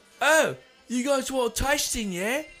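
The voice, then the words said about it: Put-on British accent. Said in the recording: “a British accent”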